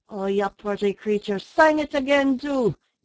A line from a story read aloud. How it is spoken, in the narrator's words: yelled an Irishman in mad enthusiasm